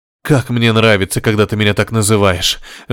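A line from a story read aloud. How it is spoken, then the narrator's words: Passionate whisper. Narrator (Russian): жарко шептал Горишвили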